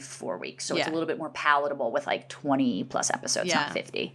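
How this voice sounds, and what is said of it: New Jersey accent. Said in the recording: “I'm from Jersey. I probably have the worst accent out there”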